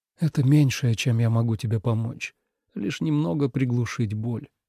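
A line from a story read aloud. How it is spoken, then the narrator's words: Whisper. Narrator (Russian): прошептал Тоби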